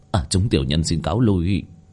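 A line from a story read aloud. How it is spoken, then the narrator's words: Quiet, low voice. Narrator (Vietnamese): vị thủ lĩnh kia nhỏ giọng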